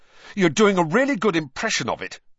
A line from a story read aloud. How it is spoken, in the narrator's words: Harry snapped